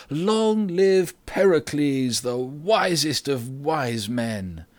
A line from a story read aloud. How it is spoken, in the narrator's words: The people cheered loudly at this and said